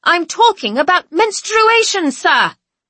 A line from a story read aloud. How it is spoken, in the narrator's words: I shout in return